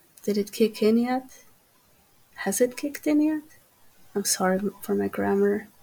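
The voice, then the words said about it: Croatian Slavic accent. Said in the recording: “You're not too far away with my accent being Ukrainian. I am Slavic. I'm from Croatia.”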